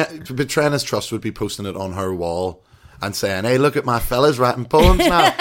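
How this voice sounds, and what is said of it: Usual voice. Nothing is said of it.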